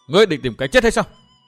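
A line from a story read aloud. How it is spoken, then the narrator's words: Loud shout. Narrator (Vietnamese): Thu Nhi quát to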